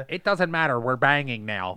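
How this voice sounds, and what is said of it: Imitates another person's voice. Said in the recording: “That was actually a good impression of him, dude... That was a really good... I really thought that was him saying that.”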